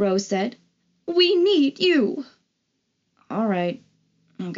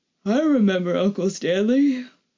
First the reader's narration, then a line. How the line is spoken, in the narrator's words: Michael said, yawning